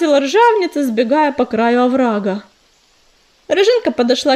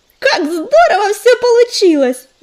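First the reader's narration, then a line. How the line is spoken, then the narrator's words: Joyful squirrel. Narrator (Russian): радостно подхватила белка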